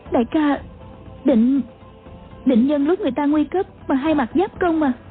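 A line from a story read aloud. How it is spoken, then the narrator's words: Trembling question. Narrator (Vietnamese): A Châu run run hỏi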